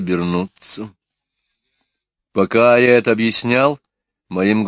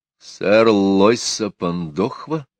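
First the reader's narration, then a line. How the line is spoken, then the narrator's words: Dejected voice. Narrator (Russian): упавшим голосом спросил я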